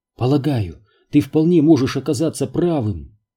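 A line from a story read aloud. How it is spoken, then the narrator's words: Soft. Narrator (Russian): мягко сказала она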